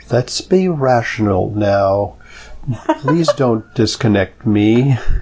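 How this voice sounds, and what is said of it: Imitates a movie computer's voice. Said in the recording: “my best Hal impersonation”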